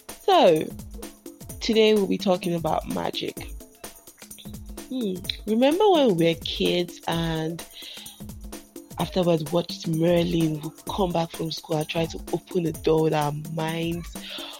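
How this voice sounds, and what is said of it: Hoarse voice from a cold. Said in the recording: “Forgive my voice, I sound like a cockroach. I have a cold,”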